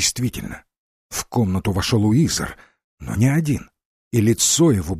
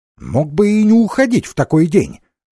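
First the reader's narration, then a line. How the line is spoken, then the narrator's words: Offended, hurt. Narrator (Russian): обиженно проговорил Джайлз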